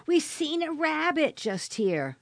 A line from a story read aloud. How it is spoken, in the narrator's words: His voice excited and friendly, he shouted